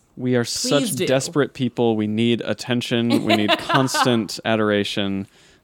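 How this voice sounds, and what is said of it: Sarcastic delivery. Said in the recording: “you're being sarcastic”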